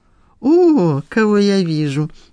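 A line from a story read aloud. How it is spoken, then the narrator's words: Joyful exclamation. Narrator (Russian): воскликнул радостно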